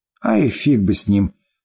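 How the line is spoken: Calm, relaxed reassurance. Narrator (Russian): спокойно и не напрягаясь, уверила она

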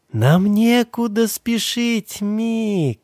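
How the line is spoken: Cooed. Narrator (Russian): проворковала она

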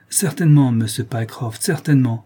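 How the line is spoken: Calmer tone. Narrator (French): répondit l'autre d'un ton plus calme

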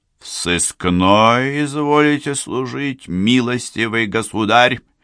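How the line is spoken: Stern disdainful question. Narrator (Russian): спросил он, грозно нахмурив кустистые брови и брезгливо дергая губами

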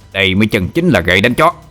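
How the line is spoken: Angry. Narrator (Vietnamese): Huyết ma cậu ... tức giận nói

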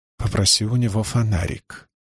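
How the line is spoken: Quiet speech. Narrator (Russian): тихо произнес

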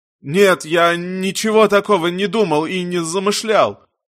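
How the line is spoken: Whiny tearful voice. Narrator (Russian): Бармен отвечал плаксивым голосом

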